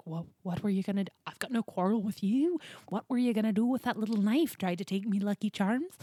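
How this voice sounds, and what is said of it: Weak put-on Irish accent. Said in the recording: “My Irish accent needs some work.”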